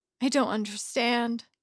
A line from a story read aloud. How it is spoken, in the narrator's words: Sunshine panted